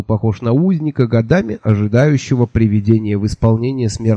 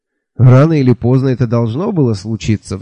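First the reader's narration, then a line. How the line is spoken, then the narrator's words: Sigh. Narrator (Russian): вздохнул лейтенант Шихола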